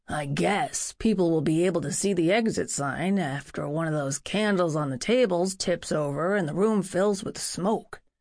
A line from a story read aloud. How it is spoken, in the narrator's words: grumbled